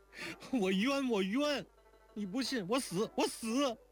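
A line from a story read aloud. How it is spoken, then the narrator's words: Crying. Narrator (Chinese): 说着竟哭出来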